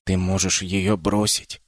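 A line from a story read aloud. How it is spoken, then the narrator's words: Sly little whisper. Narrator (Russian): шепнул коварный голосок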